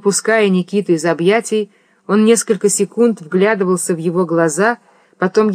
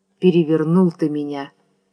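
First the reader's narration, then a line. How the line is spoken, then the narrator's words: Quiet. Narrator (Russian): тихо сказал он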